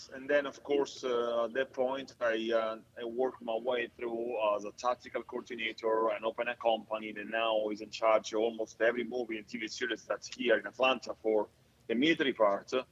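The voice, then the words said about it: Italian accent. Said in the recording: “my Italian accent”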